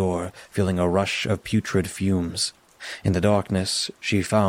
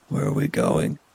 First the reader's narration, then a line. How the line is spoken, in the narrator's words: croaked, his throat weak from crying